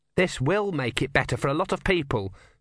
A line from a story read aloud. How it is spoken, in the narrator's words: said Urn calmly